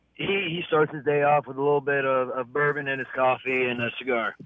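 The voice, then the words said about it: Sick-sounding voice. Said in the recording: “I'm just getting over a little illness. I'm sure you maybe all hear it in my voice.”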